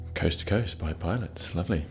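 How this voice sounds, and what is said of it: Polished radio announcer voice. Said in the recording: “Solid radio voice you have there... are you responding to my radio voice”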